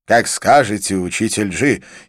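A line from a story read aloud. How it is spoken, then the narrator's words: Sudden resolute exclamation. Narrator (Russian): неожиданно воскликнул Анкит решительным тоном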